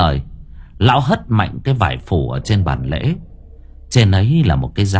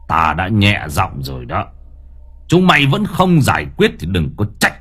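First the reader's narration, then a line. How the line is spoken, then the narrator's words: Furious old man, growling. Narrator (Vietnamese): lão điên tiết, lão gằn giọng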